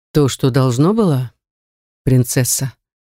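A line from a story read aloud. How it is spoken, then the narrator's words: Velvety tone. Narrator (Russian): бархатным тоном заметил он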